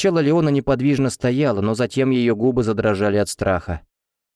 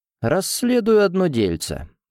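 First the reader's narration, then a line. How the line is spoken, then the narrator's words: Calm. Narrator (Russian): спокойно ответил тот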